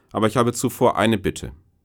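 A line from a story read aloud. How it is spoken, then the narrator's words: Firm voice, smiling. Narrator (German): sagt mit fester Stimme und lächelt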